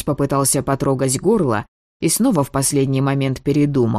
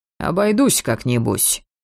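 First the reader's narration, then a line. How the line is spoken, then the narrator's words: Grumbling. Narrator (Russian): пробурчал Маркус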